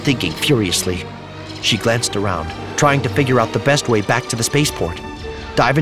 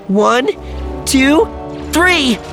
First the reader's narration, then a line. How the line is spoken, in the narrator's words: cried Alana